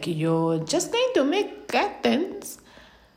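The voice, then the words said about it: Badly done put-on accent. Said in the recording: “What accent was that? That was so horrible.”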